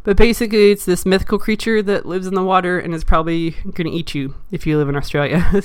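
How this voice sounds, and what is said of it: Sick-sounding voice. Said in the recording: “I apologize for my voice. Again, I've been super sick”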